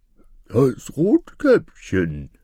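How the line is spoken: Wolf in disguised voice. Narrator (German): rief der Wolf mit verstellter Stimme

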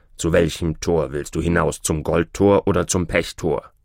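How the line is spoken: Grumbling again. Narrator (German): brummte Türschemann abermals

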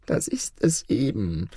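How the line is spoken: Sighed. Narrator (German): seufzte der Kalif

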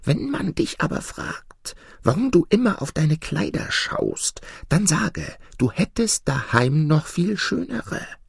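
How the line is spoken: Cat's whisper. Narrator (German): flüsterte die Katze

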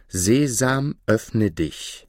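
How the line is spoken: Loud voice. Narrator (German): sprach mit lauter Stimme

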